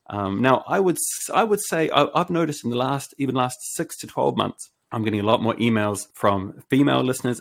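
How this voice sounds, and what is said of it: Smooth New Zealand accent. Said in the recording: “my smooth Kiwi podcast voice”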